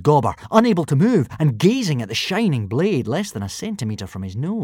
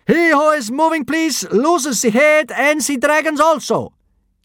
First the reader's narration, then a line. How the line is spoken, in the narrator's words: yelled the first kidnapper, speaking very badly in Norse